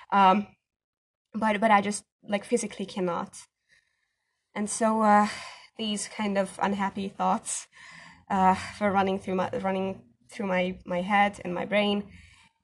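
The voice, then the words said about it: Non-native English accent. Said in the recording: “sorry for my accent.”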